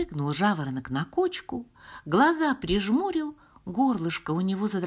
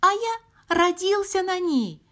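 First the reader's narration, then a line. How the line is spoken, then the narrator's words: Lark's squeak. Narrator (Russian): пискнул жаворонок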